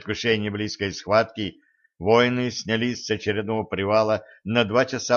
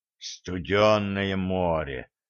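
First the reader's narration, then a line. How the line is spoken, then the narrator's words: Breathless exclamation. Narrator (Russian): выдохнул князь Горнат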